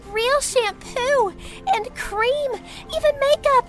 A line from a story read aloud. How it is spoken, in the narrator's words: She shouted